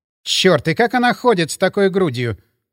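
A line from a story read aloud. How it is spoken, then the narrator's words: Mermaid exclaiming. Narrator (Russian): воскликнула русалка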